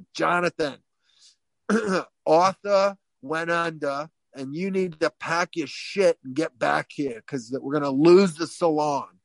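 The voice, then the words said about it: Imitated Staten Island New York accent. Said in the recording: “very much like Mr. Mike from my beauty school from Long Island, or Ron was from Staten Island ... had the exact same accent”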